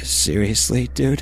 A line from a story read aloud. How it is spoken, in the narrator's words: he asked, his voice starting to tremble with pure terror